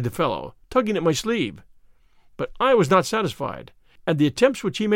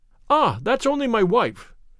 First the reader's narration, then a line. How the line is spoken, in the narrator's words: cried the commissionaire